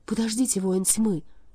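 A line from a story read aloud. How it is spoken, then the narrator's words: Agitated. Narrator (Russian): взволнованно произнесла она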